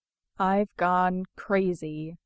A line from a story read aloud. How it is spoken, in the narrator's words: thinks, very, very calmly